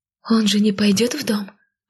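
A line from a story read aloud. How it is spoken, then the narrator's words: Anxious whisper. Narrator (Russian): взволнованно шепнула Эмбер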